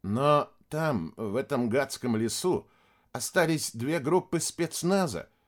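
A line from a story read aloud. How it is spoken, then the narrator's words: Quiet, grave. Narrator (Russian): тихо проговорил Куницын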